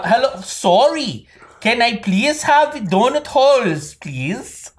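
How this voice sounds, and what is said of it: Put-on Canadian accent, oddly Swedish. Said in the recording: “This is a Canadian accent. ... She's a Swedish immigrant to Canada, so that's why her accent's so fucked up.”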